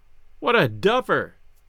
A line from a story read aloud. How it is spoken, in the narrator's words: Gus cried